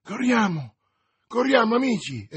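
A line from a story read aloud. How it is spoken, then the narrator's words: Exclaimed. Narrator (Italian): esclamò D'Artagnan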